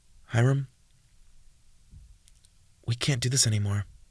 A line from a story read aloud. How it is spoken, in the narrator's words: Jordan whispered, with a numb expression